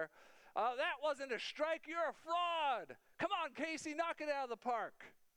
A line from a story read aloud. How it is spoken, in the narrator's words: They yelled at the umpire